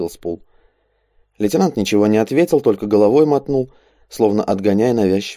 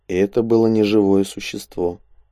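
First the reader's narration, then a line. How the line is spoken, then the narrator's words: Quiet remark. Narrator (Russian): негромко заметил Спул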